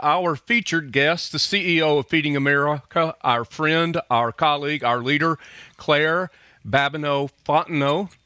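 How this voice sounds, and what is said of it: Southern twang, Alabama accent. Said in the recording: “Am I just butchering it from Alabama ... You have the best Southern twang on a Louisiana French name I think that I've ever heard.”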